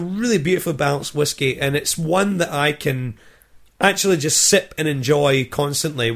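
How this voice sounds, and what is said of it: Scottish accent. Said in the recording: “I hope that three of you have Scottish influences as well, and that my accent takes you back to the motherland.”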